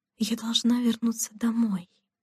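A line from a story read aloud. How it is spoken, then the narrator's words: Whispered to herself. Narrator (Russian): шепотом сказала она себе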